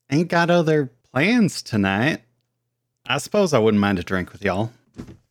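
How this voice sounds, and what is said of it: Character voice with put-on regional accent. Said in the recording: “you can hear the Karelian accent. It's not a secret.”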